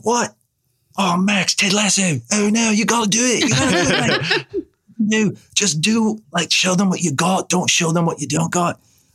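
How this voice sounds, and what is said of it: Bad put-on Australian accent. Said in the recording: “a terrible Australian accent”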